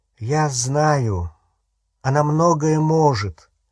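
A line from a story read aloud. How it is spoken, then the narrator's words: Tired. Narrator (Russian): устало сказал Гарри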